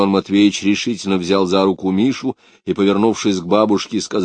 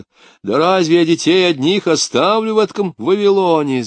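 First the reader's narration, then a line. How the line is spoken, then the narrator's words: Shouting. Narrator (Russian): закричала она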